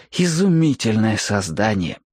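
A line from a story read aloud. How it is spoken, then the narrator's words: Deep sigh, then speaking. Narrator (Russian): глубоко вздохнул и говорит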